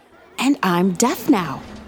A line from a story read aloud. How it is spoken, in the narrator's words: Reggie whispered to Lisa